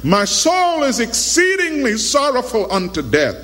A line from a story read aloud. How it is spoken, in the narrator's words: In desperation, he cried out to his disciples